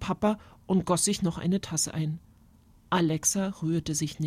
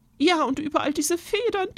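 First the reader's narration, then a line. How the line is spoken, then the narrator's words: Aunt sighing. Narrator (German): Tante Irmtraut seufzte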